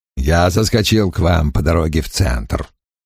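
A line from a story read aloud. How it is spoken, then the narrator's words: Muttered. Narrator (Russian): пробурчал Крэмер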